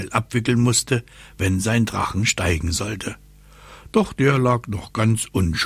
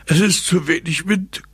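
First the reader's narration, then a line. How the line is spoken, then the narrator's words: Exhausted panting. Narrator (German): keuchte Papa, von der wilden Hopserei erschöpft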